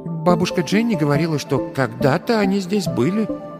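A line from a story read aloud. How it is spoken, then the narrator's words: Uncertain. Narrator (Russian): неуверенно ответила Лиззи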